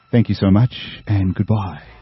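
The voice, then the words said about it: Polished radio announcer voice. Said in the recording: “I'm going to put my radio voice back on.”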